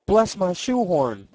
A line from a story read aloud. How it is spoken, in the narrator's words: cried Mr